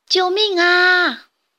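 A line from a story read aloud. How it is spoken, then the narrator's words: Loud cry for help. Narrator (Chinese): 老婆婆和小红帽马上大声地喊叫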